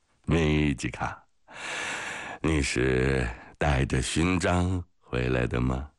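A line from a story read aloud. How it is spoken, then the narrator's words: Drunken laughing question. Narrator (Chinese): 潘特莱醉醺醺地笑着问米吉卡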